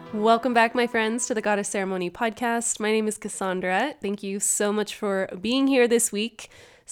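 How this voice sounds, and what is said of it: Congested, stuffy-nosed voice. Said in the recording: “I've got the sniffles this week, so if you can't tell, my voice sounds a little bit different.”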